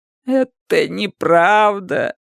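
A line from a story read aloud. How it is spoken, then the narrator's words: Weak moan. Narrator (Russian): простонала Джилл, но ее голос был слаб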